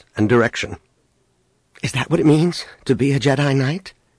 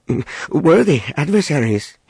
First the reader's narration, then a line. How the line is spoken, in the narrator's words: he stammered